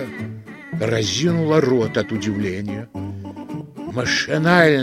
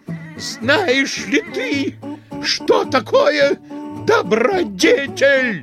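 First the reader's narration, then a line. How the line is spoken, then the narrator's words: Full-force bark. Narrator (Russian): во всю мощь гаркнул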